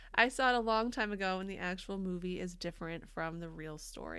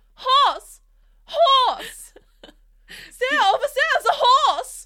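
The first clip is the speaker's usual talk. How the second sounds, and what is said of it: Shouting in a German accent. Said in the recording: “I want to hear ... shout horse, horse in a German accent”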